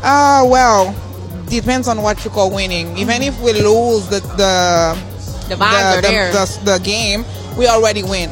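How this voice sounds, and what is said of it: Haitian-accented English. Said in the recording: “I love your accent.”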